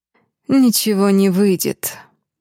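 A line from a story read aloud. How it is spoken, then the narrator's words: Said coldly. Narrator (Russian): сообщила ассистентка Алифа, холодно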